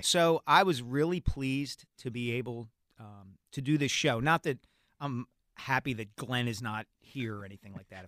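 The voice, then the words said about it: Philadelphia accent. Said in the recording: “We have a very similar timbre, I think. And the Philadelphia accent. Muddy patois, as they say.”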